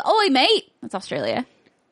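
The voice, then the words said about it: Put-on Australian accent. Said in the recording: “Your Australian Oi, and mate. English are like very similar. There's a lot of oi's happening. ... All of my accents have blended into one accent.”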